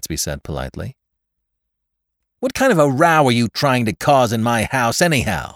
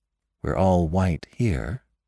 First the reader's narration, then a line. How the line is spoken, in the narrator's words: murmured Jordan